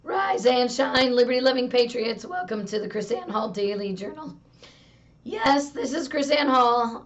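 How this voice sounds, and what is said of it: Hoarse, nearly lost voice. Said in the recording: “I have lost my voice.”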